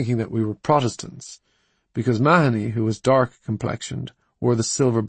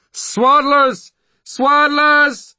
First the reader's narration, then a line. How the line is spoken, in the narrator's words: the ragged troops screaming after us